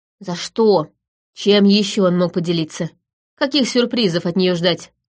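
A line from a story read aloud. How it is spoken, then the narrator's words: Growling. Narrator (Russian): рыкнул Ферт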